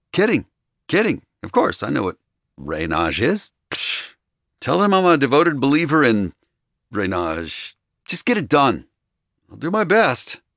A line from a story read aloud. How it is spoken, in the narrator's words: Remy said in the most resigned fucking voice I'd ever heard